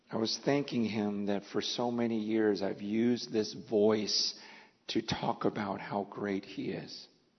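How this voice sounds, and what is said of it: Weak, fading voice. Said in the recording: “my voice was fading”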